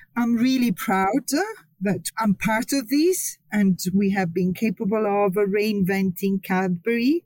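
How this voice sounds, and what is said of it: Non-British foreign accent. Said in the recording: “I'm not British. You can hear it from my accent.”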